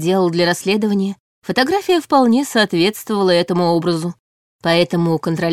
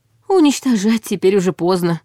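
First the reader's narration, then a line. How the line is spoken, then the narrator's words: Sighing. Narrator (Russian): вздохнул на это Борис Евгеньевич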